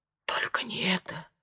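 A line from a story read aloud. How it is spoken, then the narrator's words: Whisper. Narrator (Russian): прошептал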